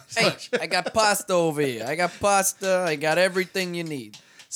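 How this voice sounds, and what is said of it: Poor put-on Italian accent, Jersey-like. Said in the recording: “Is that a good Italian accent? That didn't sound too good to me. ... more Jersey.”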